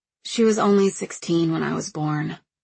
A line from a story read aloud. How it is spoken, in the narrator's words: I said finally